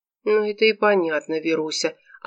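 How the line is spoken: Conciliatory tone. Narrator (Russian): отвечал Глеб Васильевич примирительным тоном

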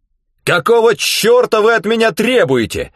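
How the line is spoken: Yelling. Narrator (Russian): заорал он

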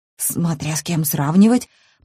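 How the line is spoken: Honest mutter. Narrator (Russian): пробормотала я с неуместной в данной ситуации честностью

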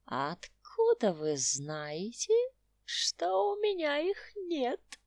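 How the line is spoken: Old man's giggle. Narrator (Russian): хихикнул старикашка

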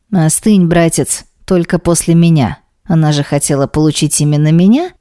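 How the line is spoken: Angry laugh. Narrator (Russian): Зло рассмеялся Демьян

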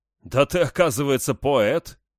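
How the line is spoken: Burglar's chuckle. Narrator (Russian): хохотнул взломщик

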